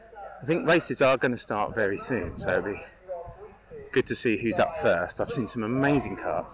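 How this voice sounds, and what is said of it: Out of breath, panting speech. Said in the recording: “I'm now getting out of breath because I'm going back up the hill.”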